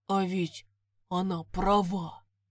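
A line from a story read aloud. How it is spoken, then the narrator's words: Confused barely audible mutter. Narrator (Russian): Растерянно пробормотал он себе под нос так тихо, что его почти не было слышно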